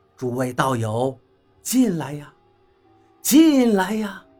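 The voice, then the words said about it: Extremely warm, friendly, coaxing voice. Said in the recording (Chinese): “他用无比亲切的声音说道”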